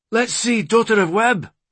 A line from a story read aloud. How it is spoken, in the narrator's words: Ronan exclaimed